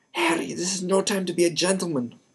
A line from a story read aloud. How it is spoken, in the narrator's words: Wood roared